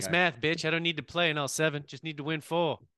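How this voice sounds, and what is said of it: Put-on Carolina accent. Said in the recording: “Is that a Carolina accent?”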